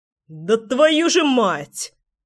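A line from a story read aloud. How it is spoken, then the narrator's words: Growling. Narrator (Russian): рычал Заверин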